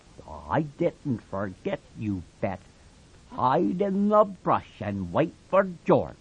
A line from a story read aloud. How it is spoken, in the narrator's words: Lenny said softly